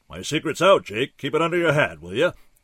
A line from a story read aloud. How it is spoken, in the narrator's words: he boomed